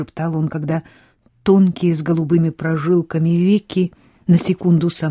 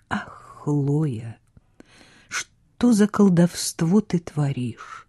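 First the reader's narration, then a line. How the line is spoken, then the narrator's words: Whispered. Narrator (Russian): прошептал он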